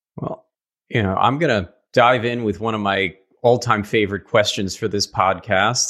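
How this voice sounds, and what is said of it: New York accent. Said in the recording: “my awful New York accent”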